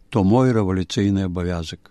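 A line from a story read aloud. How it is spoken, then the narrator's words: Sad reply. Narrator (Belarusian): той сумна адказаў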